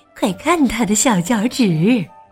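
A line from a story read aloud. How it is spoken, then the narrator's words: Muttering to oneself. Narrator (Chinese): 喃喃自语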